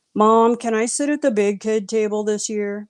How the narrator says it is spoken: my son mockingly asked

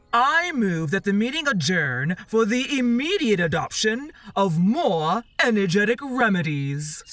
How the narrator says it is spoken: said the dodo solemnly

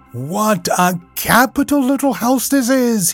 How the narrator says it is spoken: he called out cheerily

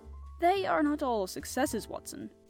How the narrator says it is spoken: said he

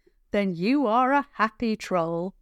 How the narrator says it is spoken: Javan said merrily

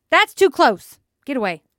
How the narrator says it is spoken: shouted

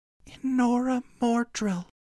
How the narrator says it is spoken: she breathed out in a whisper

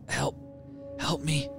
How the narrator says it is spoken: She spoke with a raspy voice

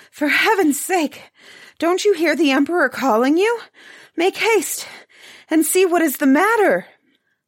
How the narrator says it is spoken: panting for breath, said to the head butler

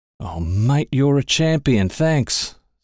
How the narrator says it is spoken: said John B

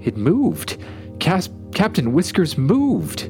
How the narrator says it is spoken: Florence exclaimed

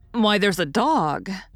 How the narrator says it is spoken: Joe suddenly exclaimed

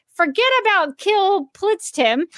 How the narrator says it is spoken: Not wanting them to leave, yells out

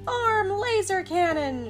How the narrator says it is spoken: shouted Alvin

